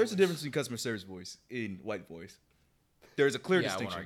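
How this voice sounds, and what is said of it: Usual voice. Nothing is said of it.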